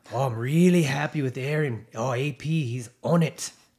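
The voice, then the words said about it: Put-on South African accent. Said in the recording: “it's my best South African accent.”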